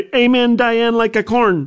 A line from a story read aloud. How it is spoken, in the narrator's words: she said very loudly